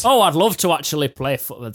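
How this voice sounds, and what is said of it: Put-on Yorkshire accent. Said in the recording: “I was going full York ... whenever I mock a Wednesday manager, I usually go Yorkshire”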